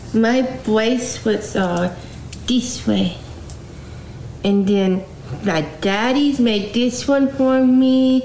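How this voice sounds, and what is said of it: Adult baby talk voice. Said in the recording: “she's not even doing a good impersonation of a retarded person. This is like, you know, your standard adult baby talking.”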